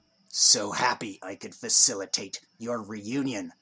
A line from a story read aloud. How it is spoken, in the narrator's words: growled Vrol